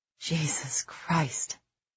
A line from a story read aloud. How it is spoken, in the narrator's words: Sykes breathed